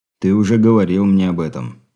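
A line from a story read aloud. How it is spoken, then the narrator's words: Gloomy. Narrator (Russian): мрачно проговорил Андрей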